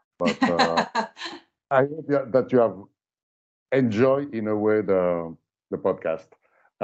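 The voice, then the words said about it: French accent. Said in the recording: “my horrible French accent”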